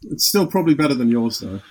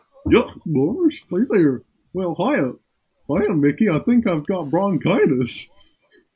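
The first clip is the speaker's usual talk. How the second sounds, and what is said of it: Goofy cartoon character voice. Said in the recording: “I could try and do a goofy impression.”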